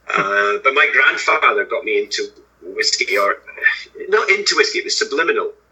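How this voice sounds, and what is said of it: Scottish accent. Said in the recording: “From Scotland, obviously, if the accent didn't give that away already.”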